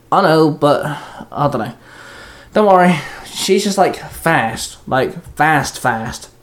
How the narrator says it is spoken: Shinzo grunted

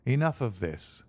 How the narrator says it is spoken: said my friend coldly

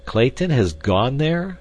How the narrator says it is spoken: exclaimed Candler, visibly chagrined

